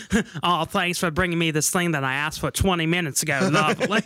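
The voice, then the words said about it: Put-on Australian accent. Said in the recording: “I should do the Australian accent.”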